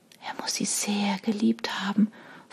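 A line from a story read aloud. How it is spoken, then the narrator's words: Whispering to herself. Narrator (German): flüsterte Sarah mehr zu sich selbst als zu den anderen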